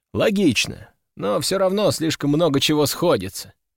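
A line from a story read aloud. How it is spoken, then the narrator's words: Sigh. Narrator (Russian): вздохнул я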